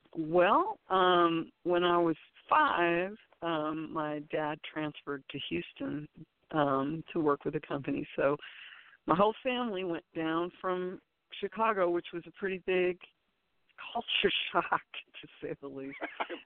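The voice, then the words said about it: Texan accent. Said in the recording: “now I feel like a Texan, and I'm sure you can probably hear it in my voice.”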